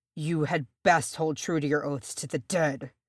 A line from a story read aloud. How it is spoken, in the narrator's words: Thorin snarled